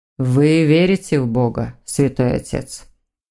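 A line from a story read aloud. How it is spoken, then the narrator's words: Muffled quiet voice. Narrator (Russian): Голос Александра зазвучал глухо и тихо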